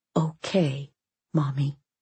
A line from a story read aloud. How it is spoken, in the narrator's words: Angelina whispered